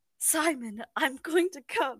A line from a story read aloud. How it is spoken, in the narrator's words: I breathed